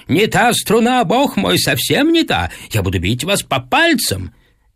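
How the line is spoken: Nervous teacher shouting. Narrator (Russian): Мой педагог нервничал, он кричал мне прямо в ухо

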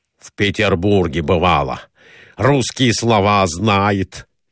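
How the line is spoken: Exclamation. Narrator (Russian): воскликнул Николай Иванович

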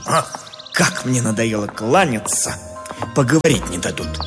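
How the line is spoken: Irritated mutter. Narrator (Russian): поэт раздраженно буркнул

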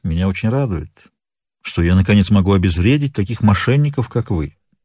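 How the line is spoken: Calm. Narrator (Russian): спокойно произнес

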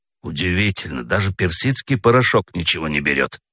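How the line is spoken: Grumbled. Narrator (Russian): проворчал Федя

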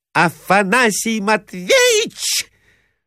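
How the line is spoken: Unnatural shriek. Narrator (Russian): взвизгнула Марья Александровна каким-то неестественным голосом

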